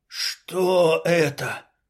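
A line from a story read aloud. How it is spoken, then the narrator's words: Hoarse wheeze. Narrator (Russian): прохрипел лоскут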